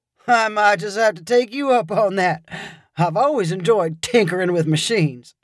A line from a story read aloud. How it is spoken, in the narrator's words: Beau chuckled and said